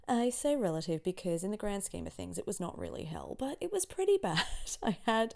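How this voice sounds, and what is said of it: Slightly scratchy, hoarse voice. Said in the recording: “my voice is still a little pitchy ... my voice is still a little scratchy after a week of relative hell ... I have had COVID for the last week”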